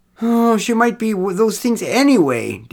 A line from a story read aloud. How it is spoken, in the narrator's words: Derek moaned